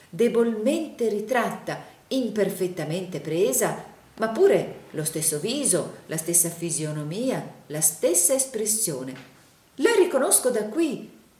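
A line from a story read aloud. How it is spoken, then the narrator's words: Enthusiastic exclamation. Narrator (Italian): esclamò il signor Plug in un trasporto d'entusiasmo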